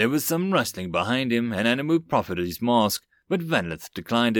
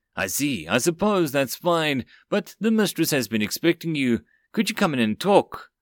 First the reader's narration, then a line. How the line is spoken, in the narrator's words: faltering